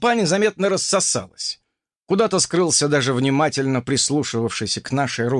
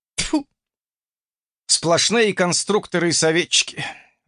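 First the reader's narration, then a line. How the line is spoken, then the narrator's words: Sighing. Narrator (Russian): вздохнул еще один геймер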